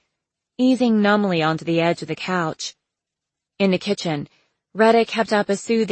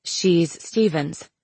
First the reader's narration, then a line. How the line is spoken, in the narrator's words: Christy Lynn said, fighting to keep her voice even